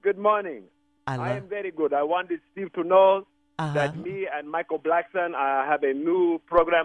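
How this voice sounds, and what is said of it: Put-on foreign accent. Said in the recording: “I love that accent.”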